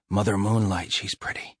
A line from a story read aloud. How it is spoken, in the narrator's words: whispered